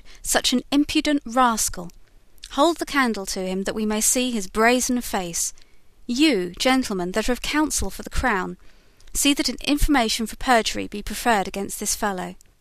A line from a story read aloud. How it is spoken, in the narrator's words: he cried